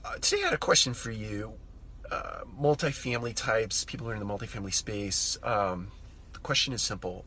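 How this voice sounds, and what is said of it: Voice sounds slightly off, unwell. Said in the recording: “I'm a little under the weather today, so forgive my voice if it sounds amiss”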